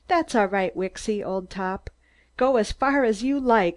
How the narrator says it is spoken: I cried

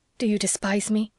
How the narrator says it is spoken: demanded Leslie in a fierce, low tone

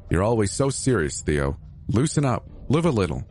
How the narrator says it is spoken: he replied

